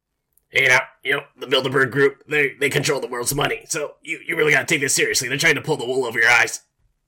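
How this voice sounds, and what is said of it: Alex Jones impression. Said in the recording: “your Alex Jones impression”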